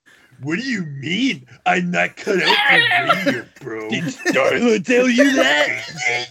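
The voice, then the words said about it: Muscle Man character radio voice. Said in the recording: “radio voice ... It's Muscle Man. That's his radio voice.”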